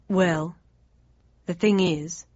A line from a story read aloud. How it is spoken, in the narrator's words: he went on slowly